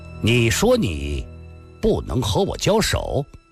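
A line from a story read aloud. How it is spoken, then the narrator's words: Harsh stern. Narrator (Chinese): 郭松阳厉声地说道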